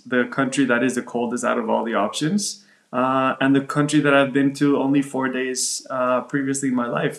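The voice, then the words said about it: American English accent. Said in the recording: “you were in Miami, as your accent actually betrays you ... you sound American ... we do have the American accent”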